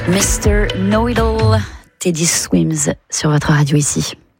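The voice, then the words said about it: Put-on London English accent, suave voice. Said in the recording (French): “mon accent ridicule ... une voix suave ... Suis-je londonienne? Pas du tout, je suis bretonne.”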